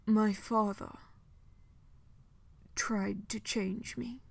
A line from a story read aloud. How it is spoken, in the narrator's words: Dorian said very quietly, as though he could lose the words under the sound of water and timber and sailcloth, and yet still have them said